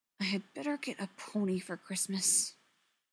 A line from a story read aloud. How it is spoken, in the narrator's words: Gwen muttered